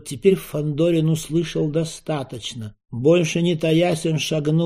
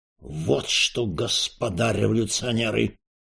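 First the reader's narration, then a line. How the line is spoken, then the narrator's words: Menacing announcement. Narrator (Russian): Грозно объявил Распетрович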